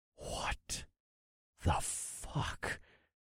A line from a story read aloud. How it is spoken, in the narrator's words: I breathed in utter astonishment